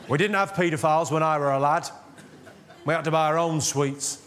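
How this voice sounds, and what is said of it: Put-on Yorkshire accent. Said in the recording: “very northern, very Yorkshire joke ... I'll tell it in a Yorkshire accent to patronise you ... How Yorkshire is that?”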